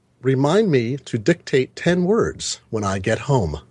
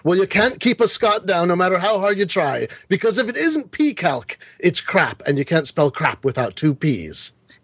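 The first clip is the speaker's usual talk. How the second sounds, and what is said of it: Horrible put-on accent. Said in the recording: “lose a point for that horrible accent”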